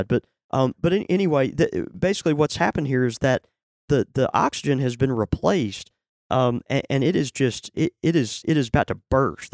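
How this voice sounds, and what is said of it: Hoarse, nearly lost voice. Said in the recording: “Lost your voice. ... It's really bad.”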